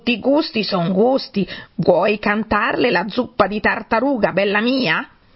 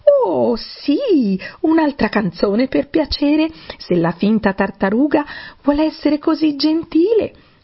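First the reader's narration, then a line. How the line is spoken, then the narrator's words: Warm exclamation. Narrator (Italian): esclamò Alice con tanto calore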